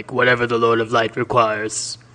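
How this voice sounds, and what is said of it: Impression of a fictional character's voice. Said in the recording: “really good Stannis impression”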